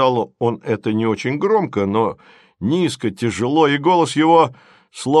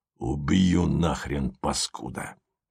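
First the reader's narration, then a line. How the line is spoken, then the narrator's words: Angry hiss. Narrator (Russian): прошипел держащий повод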